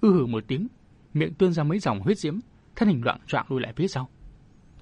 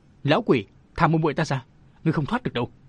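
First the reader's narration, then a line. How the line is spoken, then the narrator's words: Panicked shout while chasing. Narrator (Vietnamese): Bạch Niệu hoảng hốt vội đuổi theo hét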